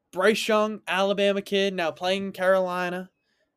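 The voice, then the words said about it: Put-on Southern US accent. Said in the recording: “I did a Southern accent for that one.”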